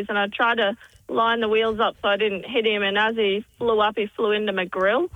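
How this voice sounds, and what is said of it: Noticeable regional accent. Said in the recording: “You've got an accent. Yeah, I love it. ... your accent.”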